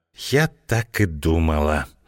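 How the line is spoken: Reproachful whisper. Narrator (Russian): с упреком прошептала Злата

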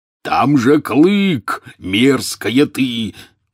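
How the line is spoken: Roared. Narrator (Russian): взревел Хагрид

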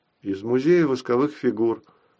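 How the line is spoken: Calm explanation. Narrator (Russian): довольно спокойно объяснил я

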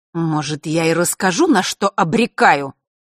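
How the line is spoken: Angry interruption. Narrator (Russian): Зло оборвала Селестину темная фея

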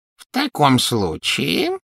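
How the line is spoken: Goblin's insinuating tone. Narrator (Russian): вкрадчиво произнес гоблин

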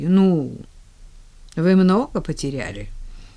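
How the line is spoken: Dry young woman. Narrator (Russian): сухо заметила девушка

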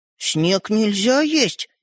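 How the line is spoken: Uncertain. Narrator (Russian): неуверенно проговорил Светлик

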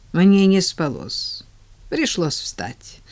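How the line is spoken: Sighing. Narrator (Russian): вздохнула тетя Поля

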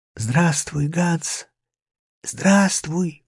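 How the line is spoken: Whisper. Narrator (Russian): прошептал я

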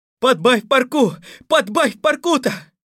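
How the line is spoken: Shouting king. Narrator (Russian): кричало его величество

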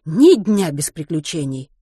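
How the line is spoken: Englishwoman sighing. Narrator (Russian): вздохнула англичанка

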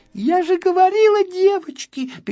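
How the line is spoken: Squeaky little girl. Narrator (Russian): пищала одна малышка

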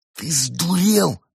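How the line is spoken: Furious hiss. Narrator (Russian): яростно прошипел кот

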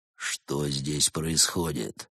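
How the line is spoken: Menacing question. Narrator (Russian): грозно поинтересовался Барс

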